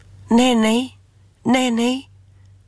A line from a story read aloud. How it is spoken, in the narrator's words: Kara cried